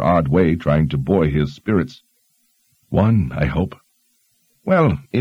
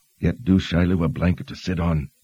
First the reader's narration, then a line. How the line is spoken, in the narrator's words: Kaelin murmured